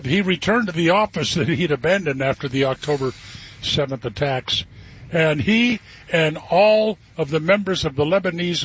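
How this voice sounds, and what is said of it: Troubled, coughing voice. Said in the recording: “makes me cough... my voice is a little troubled”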